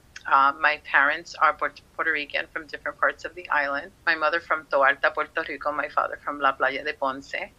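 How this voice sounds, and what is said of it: New York accent. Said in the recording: “As you can probably hear it in my voice, I am a proud New Yorker, Bronx girl at heart”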